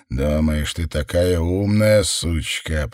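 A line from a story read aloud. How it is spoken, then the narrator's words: Man growling. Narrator (Russian): прорычал мужчина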